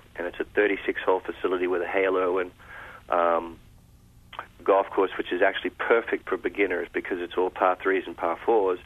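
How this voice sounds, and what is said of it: Accent that drops vowels. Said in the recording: “that's my accent ... I drop vowels like they're going out of style”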